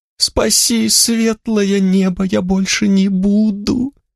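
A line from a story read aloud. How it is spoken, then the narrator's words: Whimpering thief. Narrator (Russian): хныкал воришка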